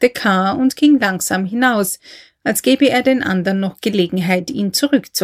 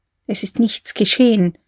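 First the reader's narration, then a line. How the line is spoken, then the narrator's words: Whispering. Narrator (German): flüsterte sie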